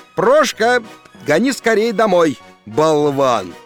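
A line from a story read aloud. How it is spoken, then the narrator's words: Shouted. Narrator (Russian): крикнул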